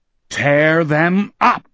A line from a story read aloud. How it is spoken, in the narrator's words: Jack Sawyer, Jason de Loessian, bellowed